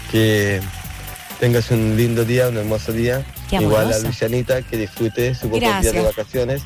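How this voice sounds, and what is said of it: Serious radio announcer voice. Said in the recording (Spanish): “¡Ay, qué serio! ¡Qué voz de locutor!”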